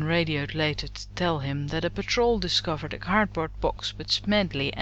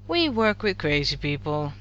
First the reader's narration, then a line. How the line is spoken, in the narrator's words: Shepard sighed, sinking heavily into his chair